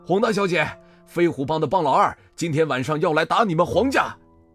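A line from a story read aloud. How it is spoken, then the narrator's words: Shouting from afar. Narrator (Chinese): 向风 远远就喊道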